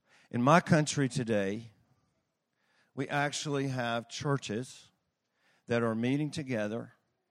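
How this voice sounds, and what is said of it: Foreign accent. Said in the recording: “I have a funny accent.”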